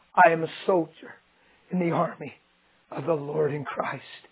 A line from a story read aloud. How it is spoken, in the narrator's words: passing out and bleeding to death and dying, he whispered out of his mouth